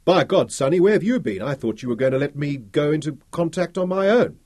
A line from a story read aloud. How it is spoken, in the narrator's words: Roland shouted from the shower